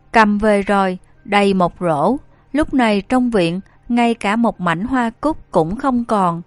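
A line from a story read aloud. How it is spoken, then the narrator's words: Plain. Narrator (Vietnamese): Lăng Liên nói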